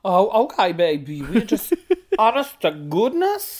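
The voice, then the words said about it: Put-on unidentifiable accent. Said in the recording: “I don't know what that accent was”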